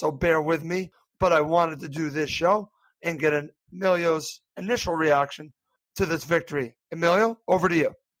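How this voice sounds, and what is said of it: Slightly hoarse voice. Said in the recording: “As you can hear, I'm a little bit hoarse”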